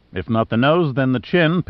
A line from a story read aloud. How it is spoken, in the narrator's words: Pitt said cheerfully